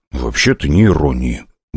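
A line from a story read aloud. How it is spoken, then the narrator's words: Grumbled under breath. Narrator (Russian): буркнул я, да так, чтобы этого никто не расслышал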